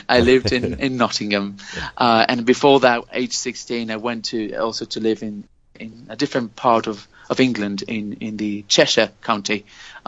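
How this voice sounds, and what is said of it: English-influenced accent. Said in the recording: “I moved to lived in the UK, hence the accent.”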